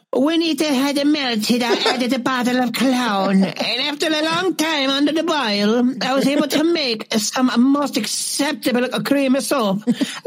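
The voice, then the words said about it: Italian accent, old woman voice. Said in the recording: “read this in your Italian accent like an old woman”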